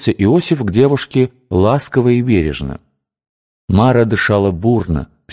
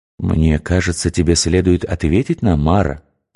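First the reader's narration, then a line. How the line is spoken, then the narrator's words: Gentle persuasion. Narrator (Russian): мягко убеждал девушку Иосиф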